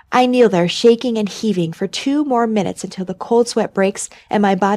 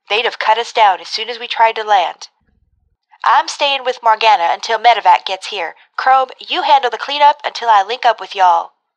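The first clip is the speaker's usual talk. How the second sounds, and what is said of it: Overemphasized loud southern accent. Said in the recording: “her overemphasized southern accent ... Kindred's voice booms over the command channel”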